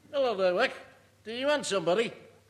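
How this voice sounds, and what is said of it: Liverpool accent. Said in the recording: “A dog with a Liverpool accent.”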